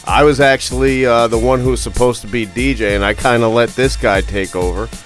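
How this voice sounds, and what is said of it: Raspy, rough hungover voice. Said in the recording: “I'm feeling extremely hungover. I'm sure my voice probably sounds a little fucking raspy and messed up”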